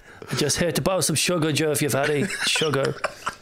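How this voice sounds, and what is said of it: Roy Keane impression. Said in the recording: “Oh, would you look at Roy Keane? ... He doesn't sound like this.”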